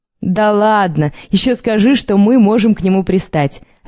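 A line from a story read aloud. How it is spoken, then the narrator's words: Laughing girls. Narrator (Russian): рассмеялись девушки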